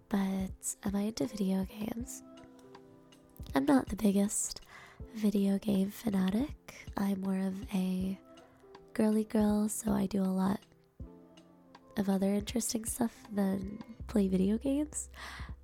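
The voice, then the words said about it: Voice lower and deeper than usual. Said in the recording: “sorry about my voice. ... It gets a little deeper at night”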